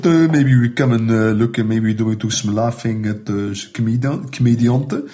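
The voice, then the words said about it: Imitated Dutch accent speaking English. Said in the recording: “you uh, actually do a pretty good impersonation of ... Dutch guy doing English. yes, it is very good”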